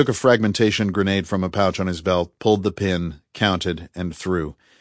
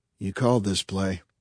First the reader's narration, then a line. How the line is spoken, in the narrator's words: murmured Pete to himself